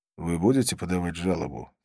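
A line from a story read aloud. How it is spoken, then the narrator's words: Quiet question. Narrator (Russian): тихо спросил я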